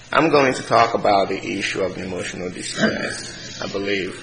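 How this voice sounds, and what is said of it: Speaks with a noticeable accent. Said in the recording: “I have an accent. It's kind of hard to hear me sometimes.”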